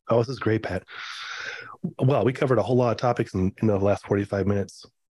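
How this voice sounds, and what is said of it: Hoarse, nearly lost voice. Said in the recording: “might have lost my voice, and that is why it sounds the way it does”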